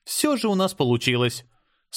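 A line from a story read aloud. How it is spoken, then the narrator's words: Completely calm. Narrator (Russian): совершенно спокойно сказала Ева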